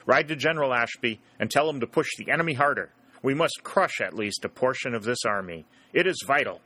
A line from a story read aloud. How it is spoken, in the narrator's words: said Jackson sharply